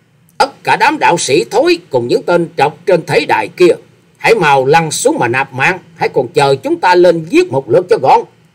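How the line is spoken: Harsh loud shout. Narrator (Vietnamese): Quái nhân áo xanh gằn giọng quát to

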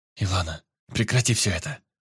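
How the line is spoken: Whispered. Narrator (Russian): прошептала она

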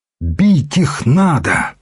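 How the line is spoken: Fervent exclamation. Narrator (Russian): воскликнул он с жаром

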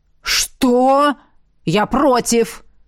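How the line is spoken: Thunderous roar. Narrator (Russian): взревел, как раскат грома, Ахараш

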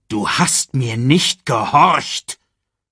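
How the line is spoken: Growl. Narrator (German): knurrte Mufasa

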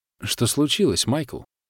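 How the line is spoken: Plain. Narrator (Russian): спросила Ариадна

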